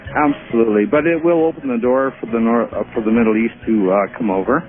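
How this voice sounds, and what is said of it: Canadian accent. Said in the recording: “If I'm reading your accent correctly, you are a Canadian?”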